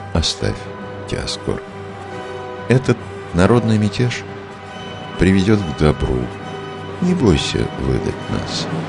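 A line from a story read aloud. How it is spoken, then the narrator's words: Calm. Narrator (Russian): Иоанн и спокойно сказал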